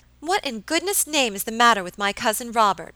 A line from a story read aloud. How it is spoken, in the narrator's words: exclaimed Miss Audley impatiently